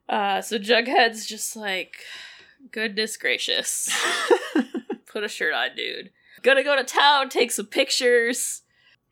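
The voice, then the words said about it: Stuffy, congested voice. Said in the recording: “I have a cold! I can't say farm!”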